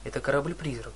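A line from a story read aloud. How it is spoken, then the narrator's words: Mumbling. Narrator (Russian): пробормотал я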